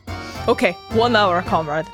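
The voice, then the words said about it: Inconsistent put-on accent. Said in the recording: “my accents are just all over the place today. I could not keep that together... That was really bad.”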